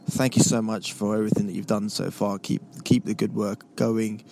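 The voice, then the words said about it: Speaks with a noticeable accent. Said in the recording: “Love the accent. You sound smart.”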